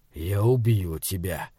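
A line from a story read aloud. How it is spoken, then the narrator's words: Whispered promise. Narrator (Russian): шепотом пообещал он змею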